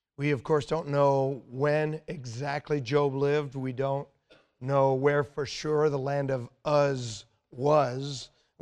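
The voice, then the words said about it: Strained, worn-out voice. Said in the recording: “forgive my voice tonight... my voice is not good... Pray that it would be better and that I would be able to be understood”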